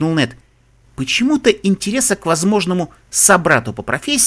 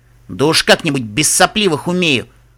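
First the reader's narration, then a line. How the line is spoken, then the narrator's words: Snapping back. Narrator (Russian): огрызнулся в ответ Солид Рок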